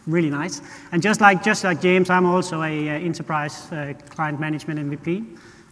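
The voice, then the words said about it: Danish accent. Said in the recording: “unlike James, I'm not from Australia. Maybe you can hear that on my accent. I'm from Denmark”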